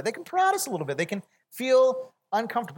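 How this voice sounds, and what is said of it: Voice rises to high pitch. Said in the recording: “Do you hear how high my voice went?”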